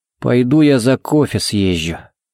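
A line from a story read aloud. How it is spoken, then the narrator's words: Grumbling. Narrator (Russian): буркнул он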